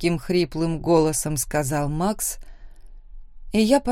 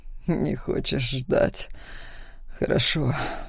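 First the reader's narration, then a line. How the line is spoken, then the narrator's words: Breathy exhale. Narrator (Russian): выдохнул он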